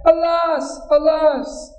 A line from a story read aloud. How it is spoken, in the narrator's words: The Brahmana immediately cried